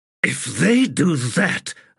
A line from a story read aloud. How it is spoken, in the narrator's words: Abrastel said in a snarl